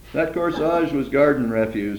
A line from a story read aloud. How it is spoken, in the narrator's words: Eddie said